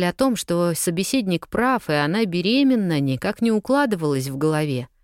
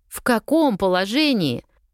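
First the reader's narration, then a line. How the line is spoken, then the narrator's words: Emotional near-shout. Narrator (Russian): практически выкрикнула на эмоциях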